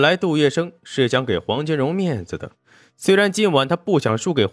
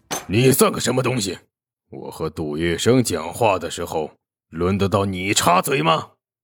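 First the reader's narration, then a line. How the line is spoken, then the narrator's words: Cold harsh shout. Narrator (Chinese): 黄金荣脸色一寒，顿时厉声喝道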